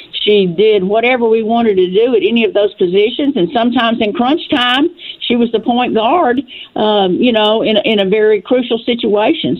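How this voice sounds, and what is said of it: Tennessee Southern accent. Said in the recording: “I see you're from Dresden, Tennessee, okay? And I hear your accent.”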